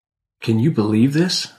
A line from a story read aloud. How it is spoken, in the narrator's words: I said